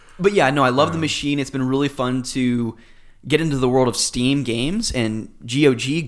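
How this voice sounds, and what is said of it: Slightly hoarse voice. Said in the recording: “My voice is a little hoarse this morning from all that Smash Brothers yelling last night.”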